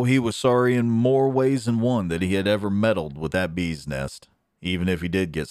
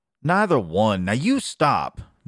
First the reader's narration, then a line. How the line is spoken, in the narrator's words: Nettie would exclaim